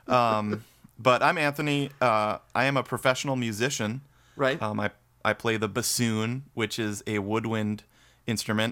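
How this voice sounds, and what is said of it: Wisconsin accent. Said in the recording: “they usually say we sound like brothers. Yeah. From from the from Wisconsin ... it's the accent too, probably ... Yeah, the accent.”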